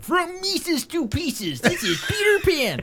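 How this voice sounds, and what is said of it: Performs Peter Pan character voice. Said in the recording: “Give me your Peter Pan. ... let's you do Peter Pan. ... Well, that was pretty good.”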